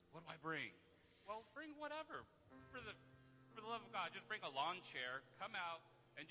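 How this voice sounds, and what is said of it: Usual voice. Nothing is said of it.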